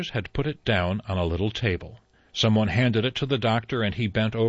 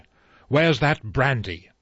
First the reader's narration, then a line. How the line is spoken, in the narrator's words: Armstrong said sharply